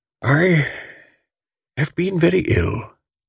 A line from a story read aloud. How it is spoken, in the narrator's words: she said faintly